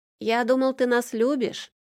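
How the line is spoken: Child shouting after. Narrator (Russian): Вслед ей выкрикнула мое бесхитростное кровное продолжение

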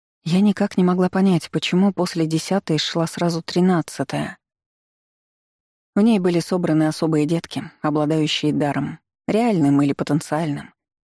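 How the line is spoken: Gentle female explanation. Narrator (Russian): мягко объяснила женщина

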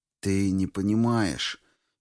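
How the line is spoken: Young man's sad statement. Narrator (Russian): печально констатировал юноша

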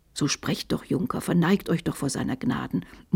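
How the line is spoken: Dejected murmur. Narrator (German): murmelte Magister Onno bedrückt

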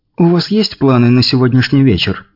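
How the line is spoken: Plain. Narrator (Russian): спросила Ольга

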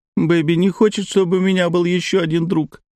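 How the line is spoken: Whimpered. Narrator (Russian): прохныкала Алена

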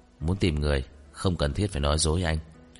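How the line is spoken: Cold. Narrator (Vietnamese): Ngụy Tông Thao lạnh lùng

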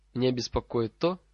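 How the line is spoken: Completely calm tone. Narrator (Russian): совершенно спокойным тоном ответила Амелия Боунс

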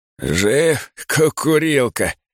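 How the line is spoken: Hoarse, creaky voice. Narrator (Russian): спрашивает он хриплым, скрипучим голосом

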